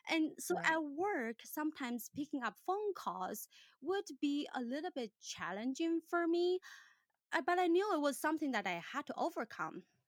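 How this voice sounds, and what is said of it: Non-native English accent. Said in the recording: “I was super self-conscious with my accent... I immediately connect that to my accent”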